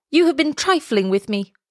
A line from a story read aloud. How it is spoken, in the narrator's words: he cried